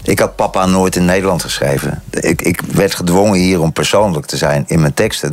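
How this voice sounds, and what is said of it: Netherlands Dutch accent. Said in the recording (Dutch): “Ook al klinkt mijn accent is nog altijd Nederlands.”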